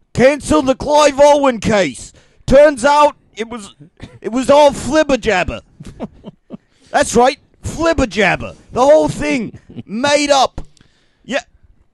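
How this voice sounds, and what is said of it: Put-on Australian accent. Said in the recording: “Yes, I do have an Australian accent.”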